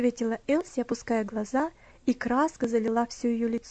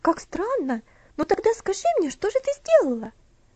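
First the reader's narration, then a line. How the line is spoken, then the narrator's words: Curious exclamation. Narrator (Russian): Опять воскликнула Луси, не скрывая любопытства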